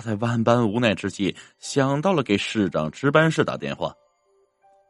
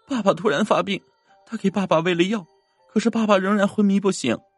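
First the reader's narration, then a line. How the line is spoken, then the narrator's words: Crying young girl. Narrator (Chinese): 一个十岁左右的小女孩哭着说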